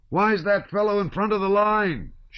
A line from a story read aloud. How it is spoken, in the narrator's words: shouted somebody